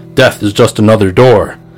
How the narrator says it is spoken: Bill's voice booms

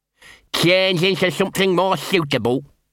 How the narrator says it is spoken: he said, his voice slightly muffled by the bone

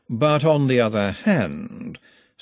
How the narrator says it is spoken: said Vetinari, his voice all smoothness

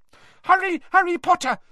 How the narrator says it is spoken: squeaked Dobby

